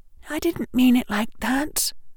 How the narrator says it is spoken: Hermione said, her voice coming out in a frightened whisper

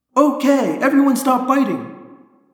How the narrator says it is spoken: I yelled

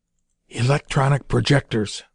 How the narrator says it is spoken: whispered

